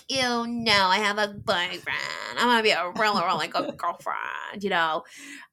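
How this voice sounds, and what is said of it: Put-on valley girl accent. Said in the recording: “valley girl accent ... In my valley girl accent, because that's the epitome of Americanness”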